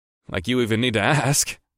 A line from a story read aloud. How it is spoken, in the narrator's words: I laughed